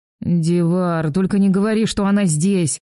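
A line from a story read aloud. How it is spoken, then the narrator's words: Moaning. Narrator (Russian): Простонал друг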